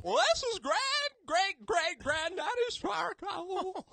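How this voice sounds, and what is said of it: Old man voice. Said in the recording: “our old man voice ... That was perfect. That was good.”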